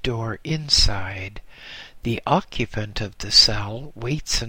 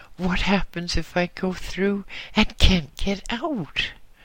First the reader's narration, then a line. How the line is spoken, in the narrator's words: I exclaimed in complete fright